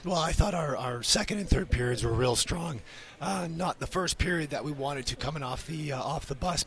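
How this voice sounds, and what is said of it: Strained voice worn from yelling. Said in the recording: “I apologize for my voice. ... had to yell about”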